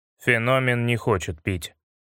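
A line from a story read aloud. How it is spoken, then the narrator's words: Gloomy. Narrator (Russian): мрачно сказал Дима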